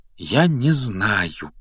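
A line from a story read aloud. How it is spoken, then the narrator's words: Quiet. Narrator (Russian): тихо произнес Гарри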